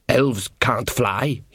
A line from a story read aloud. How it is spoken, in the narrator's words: he muttered